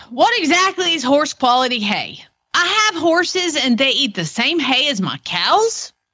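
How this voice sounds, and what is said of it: Put-on Oklahoma accent. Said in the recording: “slip into my Oklahoma ... Accent”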